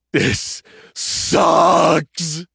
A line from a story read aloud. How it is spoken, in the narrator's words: he groaned